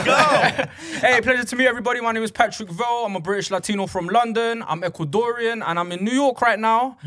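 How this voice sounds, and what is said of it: English accent. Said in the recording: “I've never heard Ecuadorian said in an English accent.”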